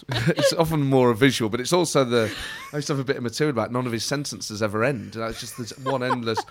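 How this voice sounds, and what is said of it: Usual voice. Nothing is said of it.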